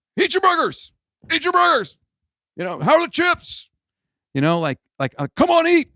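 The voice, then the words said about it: Yelling, demanding delivery. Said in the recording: “Like I'm yelling at you to eat”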